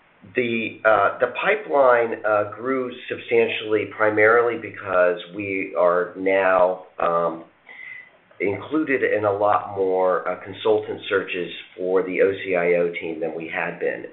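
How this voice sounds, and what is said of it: Hoarse voice. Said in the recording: “a little hoarse. I'm struggling with some spring allergies.”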